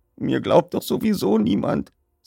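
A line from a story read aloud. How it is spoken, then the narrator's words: Man's thin voice. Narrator (German): sagte er mit dünner Stimme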